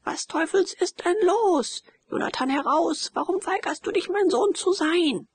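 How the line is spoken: Shouting. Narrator (German): schrie der Major

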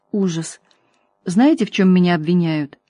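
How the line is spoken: Muttered. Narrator (Russian): женщина пробормотала

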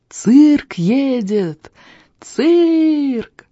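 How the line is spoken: Joyful shrill shout outside. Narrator (Russian): радостно и пронзительно закричал снаружи Тони Пискля

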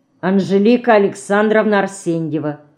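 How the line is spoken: Calm lifeless voice. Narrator (Russian): спокойно, безжизненным голосом ответила мышка

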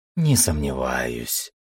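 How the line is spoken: Purring voice. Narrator (Russian): раздался мурлыкающий голос черной Мью

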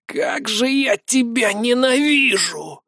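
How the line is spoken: Wheezing gurgle. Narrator (Russian): То ли прохрипел, то ли пробулькал Гнор

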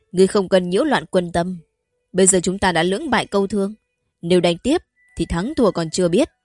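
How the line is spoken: Raised voice. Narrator (Vietnamese): Như Phong cũng cao giọng nói

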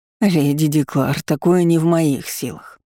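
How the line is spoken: Moaning wizard. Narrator (Russian): застонал маг

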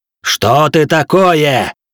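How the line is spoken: Roaring. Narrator (Russian): буквально проревел

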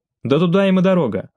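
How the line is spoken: Snapping retort. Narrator (Russian): огрызнулся Бортник

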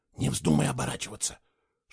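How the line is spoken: Whispered. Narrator (Russian): шепнула она

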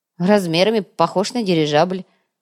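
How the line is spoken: Snort. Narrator (Russian): хмыкнул Артем

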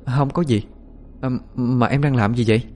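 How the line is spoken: Hesitant, then calm. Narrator (Vietnamese): ngập ngừng vài giây, lấy lại bình tĩnh rồi mới nói

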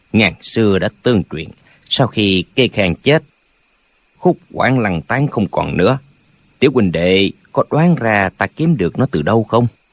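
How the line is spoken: Old man, smiling. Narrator (Vietnamese): Lão mỉm cười nói

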